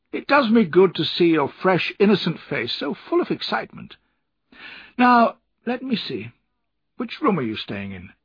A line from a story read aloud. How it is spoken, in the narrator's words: laughed Steerforth